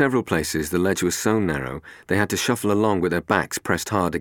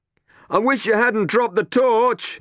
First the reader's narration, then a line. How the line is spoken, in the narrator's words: he shouted to Robin